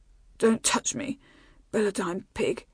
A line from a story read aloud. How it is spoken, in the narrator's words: she mumbled